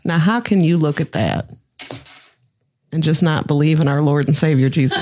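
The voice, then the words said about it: Put-on little Southern accent. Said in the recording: “my favorite accent to do, by the way. ... little southern one. Southern.”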